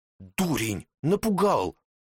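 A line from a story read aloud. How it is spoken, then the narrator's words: Quiet displeased snap. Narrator (Russian): девушка облегченно выдохнула и тут же с недовольством негромко прикрикнула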